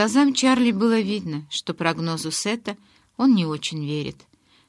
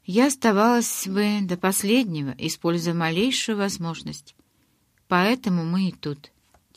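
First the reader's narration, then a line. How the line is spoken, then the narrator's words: Said quietly. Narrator (Russian): тихо произнесла я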